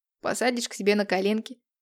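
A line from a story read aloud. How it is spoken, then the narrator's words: Short man chuckling. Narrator (Russian): хохотнул коротышка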